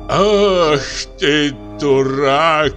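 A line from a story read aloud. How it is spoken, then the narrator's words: Groaning. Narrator (Russian): простонал Мишель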